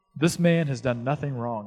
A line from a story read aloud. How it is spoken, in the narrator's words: he said